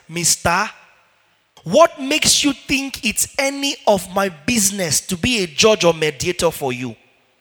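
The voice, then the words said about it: Put-on Nigerian accent. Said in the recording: “let's use Nigerian accent.”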